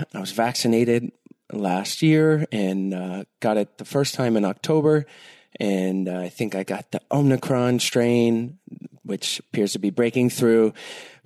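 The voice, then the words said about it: Stuffy, congested voice. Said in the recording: “if I sound a little stuffy, that's why ... just got done with my second bout of COVID this week ... why I sound stuffy”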